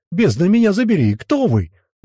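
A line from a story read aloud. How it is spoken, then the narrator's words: Man's exclamation. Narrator (Russian): воскликнул мужик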